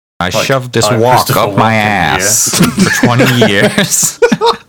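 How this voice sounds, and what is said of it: Imitates another person's voice. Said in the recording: “doing a Christopher Walken impression”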